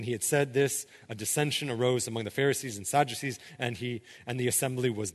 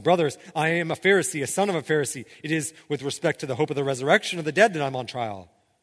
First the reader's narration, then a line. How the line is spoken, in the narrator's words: Paul cried out in the council